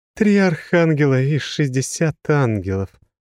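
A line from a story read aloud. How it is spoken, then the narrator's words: Bitter sigh. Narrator (Russian): горько вздохнула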